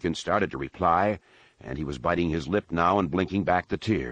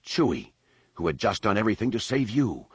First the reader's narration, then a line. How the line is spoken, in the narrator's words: Han said with a growl